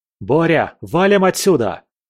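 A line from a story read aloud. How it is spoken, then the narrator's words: Shouted. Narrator (Russian): крикнул я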